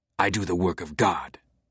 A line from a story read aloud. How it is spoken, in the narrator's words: Silas spat back, through the pain in his jaw